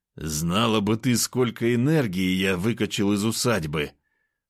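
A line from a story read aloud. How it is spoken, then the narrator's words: Moan. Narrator (Russian): простонал я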